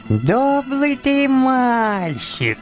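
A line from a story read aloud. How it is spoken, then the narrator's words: Thin little voice. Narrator (Russian): сказал он мне тоненьким голоском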